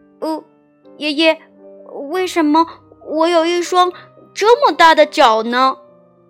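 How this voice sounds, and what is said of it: Quiet, soft-spoken voice. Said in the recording (Chinese): “哈利小声的问爷爷”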